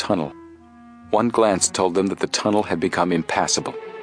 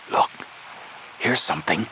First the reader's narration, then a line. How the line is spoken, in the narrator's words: Suddenly, Frank whispered hoarsely